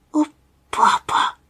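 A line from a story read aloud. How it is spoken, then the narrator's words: Barely audible whisper. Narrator (Russian): прошептал он чуть слышно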